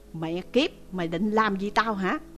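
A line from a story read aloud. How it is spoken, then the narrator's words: Blustering, shouting. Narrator (Vietnamese): Chủ tịch Ngô thì cứ dương quai dịu võ quát nạt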